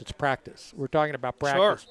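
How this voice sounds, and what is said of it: Allen Iverson impression. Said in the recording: “in your Allen Iverson voice”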